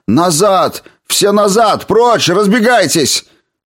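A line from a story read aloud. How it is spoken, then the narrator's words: Shouting. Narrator (Russian): он закричал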